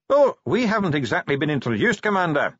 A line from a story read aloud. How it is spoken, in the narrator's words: said the dwarf cheerfully